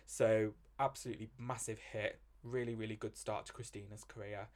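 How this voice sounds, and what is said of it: British accent. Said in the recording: “judging from my accent, I've got to tell you what it went to in the UK”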